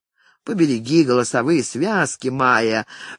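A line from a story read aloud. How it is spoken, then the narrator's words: Forced calm speech. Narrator (Russian): Фредерик заставлял себя говорить спокойно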